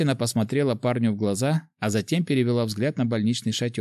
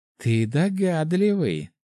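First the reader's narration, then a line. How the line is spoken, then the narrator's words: Short laugh, female. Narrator (Russian): хохотнула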